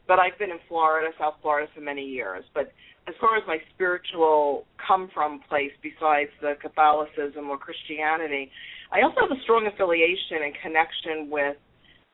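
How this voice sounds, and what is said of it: New York accent. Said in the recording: “I'm a New York Italian girl, in case you didn't pick up by my accent of the New York part”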